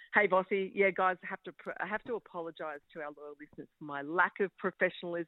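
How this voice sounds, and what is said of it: Usual voice. Nothing is said of it.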